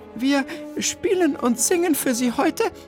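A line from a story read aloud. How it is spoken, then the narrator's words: Slightly trembling voice. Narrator (German): wandte Bertha sich mit leicht zittriger Stimme an das erstaunte Publikum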